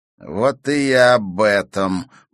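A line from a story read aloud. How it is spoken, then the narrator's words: Through gritted teeth. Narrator (Russian): процедил сквозь зубы Игорь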